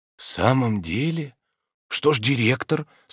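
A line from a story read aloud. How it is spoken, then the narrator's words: Trembling question. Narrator (Russian): спросил Обломов дрожащим голосом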